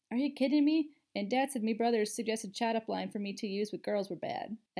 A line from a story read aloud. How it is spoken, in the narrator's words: laughed